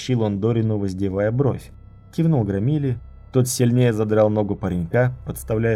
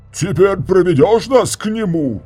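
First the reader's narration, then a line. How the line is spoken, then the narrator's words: Yelled. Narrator (Russian): заорал он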